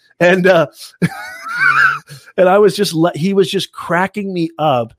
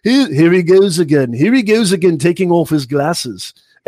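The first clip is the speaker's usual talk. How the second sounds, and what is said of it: Deliberately bad British accent. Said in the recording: “I'm going to do a terrible British accent.”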